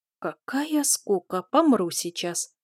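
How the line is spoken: Whispered. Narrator (Russian): шепотом высказался Жутик

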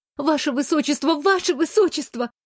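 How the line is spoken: Flustered babbling. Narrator (Russian): залепетала я

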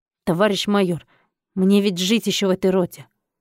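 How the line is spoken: Confident, forced out. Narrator (Russian): Султанбеков уверенно выдавил

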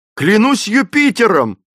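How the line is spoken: Exclaiming. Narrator (Russian): воскликнул

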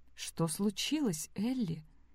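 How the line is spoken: Quiet question. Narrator (Russian): тихо спросила Сэм

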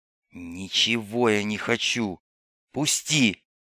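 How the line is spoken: Hiss. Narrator (Russian): прошипел смокер

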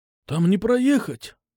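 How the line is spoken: Bewildered. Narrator (Russian): растерянно ответил он

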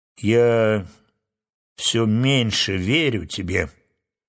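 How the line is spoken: Sad remark. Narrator (Russian): грустно замечала благородная птица

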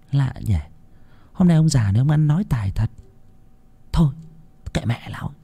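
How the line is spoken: Puzzled muttering. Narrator (Vietnamese): con Loan lấy làm lạ, nó lẩm bẩm

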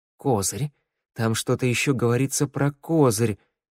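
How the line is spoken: Grumbled mutter. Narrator (Russian): Валет буркнул

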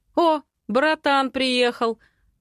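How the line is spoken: Loud, grinning. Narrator (Russian): Скалясь, громко выдает Дэн

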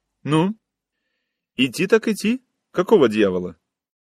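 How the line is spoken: Sharp, curt. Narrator (Russian): Женщина резко бросила

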